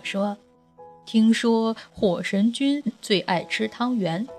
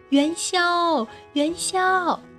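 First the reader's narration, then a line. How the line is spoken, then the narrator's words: Shouting. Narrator (Chinese): 元宵听到喊声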